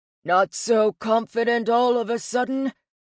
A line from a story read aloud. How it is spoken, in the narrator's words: Surt rumbled